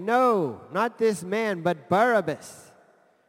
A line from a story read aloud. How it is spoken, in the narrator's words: they shouted again, saying